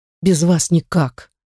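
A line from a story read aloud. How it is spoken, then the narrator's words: Sad sigh over phone. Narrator (Russian): Печально вздыхает парень в трубку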